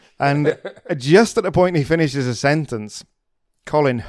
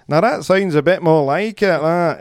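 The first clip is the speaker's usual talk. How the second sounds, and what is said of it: Imitates another person's accent. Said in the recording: “It sounds a great accent there”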